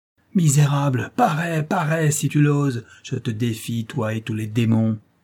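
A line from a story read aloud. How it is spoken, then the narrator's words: Thundering furious shout. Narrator (French): s'écria, les yeux étincelants et d'une voix tonnante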